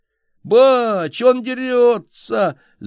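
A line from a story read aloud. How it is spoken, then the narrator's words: Wailing yell. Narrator (Russian): завопил Викентий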